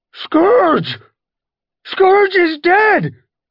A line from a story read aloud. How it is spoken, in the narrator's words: the cry rose above the screeches of battling cats